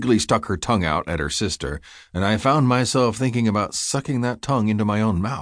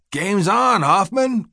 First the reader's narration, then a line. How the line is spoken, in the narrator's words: Coach Siggy bellowed